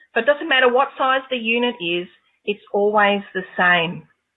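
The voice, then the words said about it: Noticeable foreign accent. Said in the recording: “is my accent a little bit too hard to understand?”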